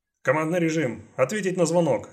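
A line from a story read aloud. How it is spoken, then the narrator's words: Barked command. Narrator (Russian): рявкнул Райм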